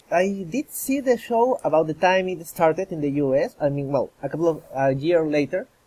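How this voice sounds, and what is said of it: Non-American accent. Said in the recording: “people have probably sussed from your accent that you're not in America”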